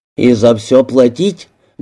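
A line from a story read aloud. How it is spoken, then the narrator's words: Rude question. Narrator (Russian): грубо спросил Кеннет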